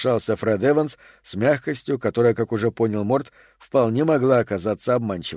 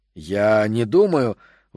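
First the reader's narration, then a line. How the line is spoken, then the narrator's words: Indignant. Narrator (Russian): возмущенно начал Тед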